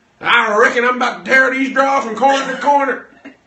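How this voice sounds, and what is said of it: Put-on cowboy accent. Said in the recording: “Come in here in some leather chaps ... Wearing a cowboy hat. ... use the full accent.”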